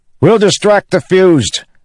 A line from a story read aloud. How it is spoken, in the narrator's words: Kaladin shouted to Adolin